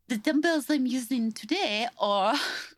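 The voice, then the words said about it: Bad Swedish-sounding impression. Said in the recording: “That was the worst impression I've ever done ... It was very Swedish”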